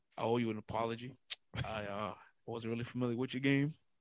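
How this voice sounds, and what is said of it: Imitates another person's voice. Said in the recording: “in my Shaq voice.”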